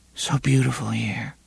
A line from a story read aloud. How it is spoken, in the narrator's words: she murmured